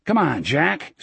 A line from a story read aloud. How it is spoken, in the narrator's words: Smokey called impatiently from the bar